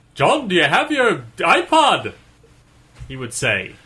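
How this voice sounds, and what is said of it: Put-on British accent. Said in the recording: “your British accent has improved. Last year, your British accent sounded like Mickey Mouse.”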